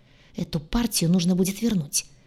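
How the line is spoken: Annoyed hiss. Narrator (Russian): Досадливо прошипел он

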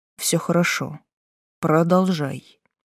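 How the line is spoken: Softly spoken. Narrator (Russian): мягко сказал

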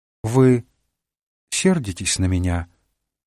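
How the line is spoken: Timid question. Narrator (Russian): робко спросила Делла

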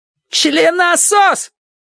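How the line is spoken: Woman shouting after someone. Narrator (Russian): крикнула вслед женщина

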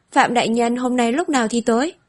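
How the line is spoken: Weak, hoarse. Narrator (Vietnamese): Tiếu Ân vô lực yếu ớt, giọng khàn khàn nói

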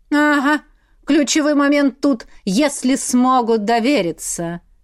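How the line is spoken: Sarcastic demonic drawl. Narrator (Russian): язвительно протянул демон

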